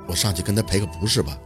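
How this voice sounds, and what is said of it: Quiet, hushed voice. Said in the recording (Chinese): “小声的开口”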